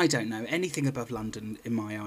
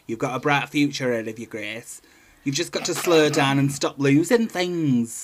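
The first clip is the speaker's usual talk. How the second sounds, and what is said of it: Imitated Coventry, Midlands accent. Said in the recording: “What's a Coventry accent? ... that's Brummie. Well, that's Midlands”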